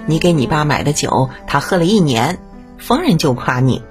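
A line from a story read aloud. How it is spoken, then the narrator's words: Laughing. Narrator (Chinese): 大婶儿笑着说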